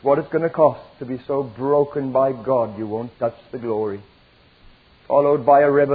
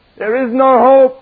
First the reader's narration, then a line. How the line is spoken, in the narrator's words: they cried